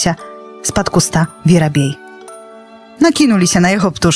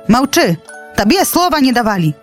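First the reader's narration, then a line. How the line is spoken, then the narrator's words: Eagle shouting. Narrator (Belarusian): крыкнуў арол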